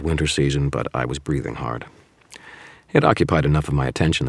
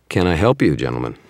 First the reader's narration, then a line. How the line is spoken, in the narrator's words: I asked